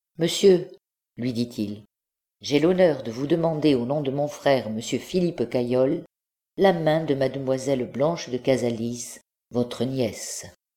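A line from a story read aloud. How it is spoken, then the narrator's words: Calm, polite. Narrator (French): d'une voix calme et polie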